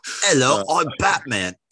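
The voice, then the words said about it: Put-on Australian accent, imitating someone. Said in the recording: “That's my Australian accent. That's my Mel Gibson impression.”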